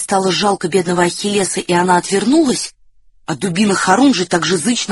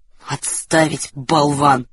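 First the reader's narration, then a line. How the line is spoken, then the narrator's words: Red-faced grumble. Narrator (Russian): пробурчал багровый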